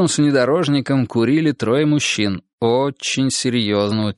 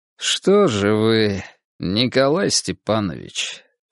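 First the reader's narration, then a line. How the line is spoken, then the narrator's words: Calm, seemingly friendly man. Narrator (Russian): Все так же спокойно и вроде бы даже доброжелательно продолжал мужчина в очках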